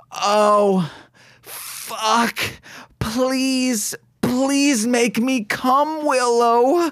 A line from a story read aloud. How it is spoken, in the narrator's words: Faith moans out in defeat